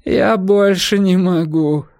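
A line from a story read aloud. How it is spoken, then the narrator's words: Groan. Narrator (Russian): простонал он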